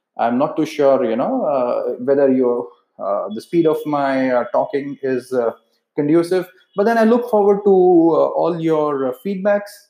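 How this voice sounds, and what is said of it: Indian accent. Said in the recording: “Being from India, my accent is pretty much Indian.”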